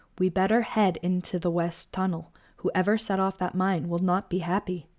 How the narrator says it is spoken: Tanya said

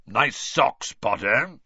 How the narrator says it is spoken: Moody growled

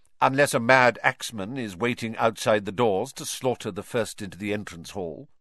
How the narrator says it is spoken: said Professor McGonagall coldly

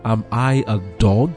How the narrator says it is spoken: he exclaimed

